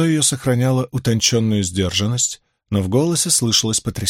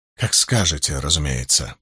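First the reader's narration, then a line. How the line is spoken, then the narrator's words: Woman muttering. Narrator (Russian): пробормотала женщина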